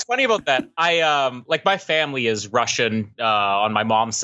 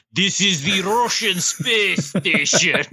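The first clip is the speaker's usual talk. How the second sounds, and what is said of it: Put-on Russian accent. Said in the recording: “the only one I could do is a Russian accent ... if you want to nail the Russian accent, all you have to do is say the line from Armageddon ... that's how you nail a Russian accent.”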